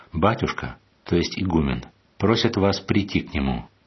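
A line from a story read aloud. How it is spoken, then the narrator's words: Calm. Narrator (Russian): какой-то послушник спокойно сказал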